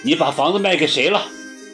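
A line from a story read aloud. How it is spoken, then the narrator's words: Cold sneer. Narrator (Chinese): 我冷笑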